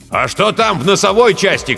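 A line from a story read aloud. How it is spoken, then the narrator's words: Shout. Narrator (Russian): крикнул Жирилло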